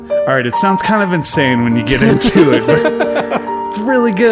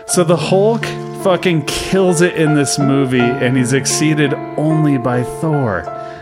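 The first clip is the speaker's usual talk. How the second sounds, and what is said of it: Dramatic voice. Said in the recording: “I don't know why I'm talking in a dramatic voice.”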